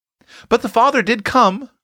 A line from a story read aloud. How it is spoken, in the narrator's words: cried Roxy eagerly